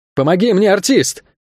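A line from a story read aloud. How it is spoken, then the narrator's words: Straining shout. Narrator (Russian): крикнул он, не в силах подтянуться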